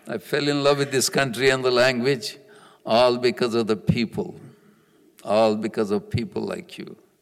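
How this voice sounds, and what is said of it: Foreign accent mixed with American. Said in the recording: “interesting accent from the other side of the world mixed up with a little bit of accent of your country”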